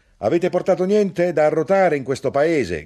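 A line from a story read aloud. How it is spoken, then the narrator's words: Shout. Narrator (Italian): gridò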